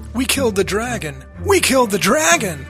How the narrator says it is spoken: As a victorious player once exclaimed

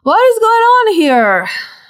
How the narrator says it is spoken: rubbing His eyes, yawning, and saying

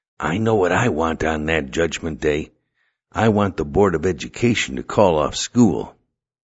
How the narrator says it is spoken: he whispered

